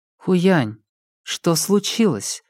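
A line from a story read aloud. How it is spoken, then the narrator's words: Soft question. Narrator (Russian): мягко спросила Лэйжун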